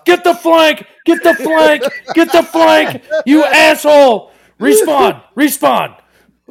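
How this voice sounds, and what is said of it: Yelling. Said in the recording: “I'm yelling at my teammates”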